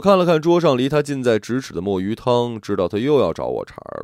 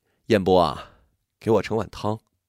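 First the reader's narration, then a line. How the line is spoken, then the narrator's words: Sighing. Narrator (Chinese): 她叹了口气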